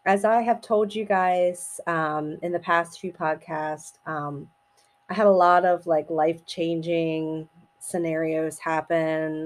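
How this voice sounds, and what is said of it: Slightly raspy voice. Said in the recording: “My voice is a little raspy, still dealing with the vid”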